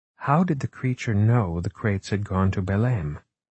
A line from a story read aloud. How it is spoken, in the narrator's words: Margot finally said quietly